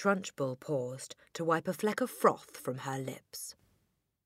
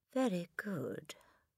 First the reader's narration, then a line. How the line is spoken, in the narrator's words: the boy mumbled